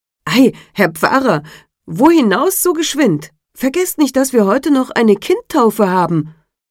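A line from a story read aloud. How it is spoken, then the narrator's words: Surprised call. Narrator (German): Da verwunderte er sich und rief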